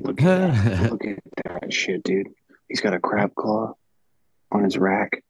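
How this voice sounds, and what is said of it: Soft ASMR-style whisper. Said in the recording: “trying out a new ASMR thing ... he's whispering ... He's trying to be real sexy.”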